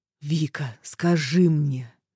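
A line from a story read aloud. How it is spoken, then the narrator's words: Suddenly quiet, hoarse. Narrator (Russian): Его голос неожиданно стал тихим и хриплым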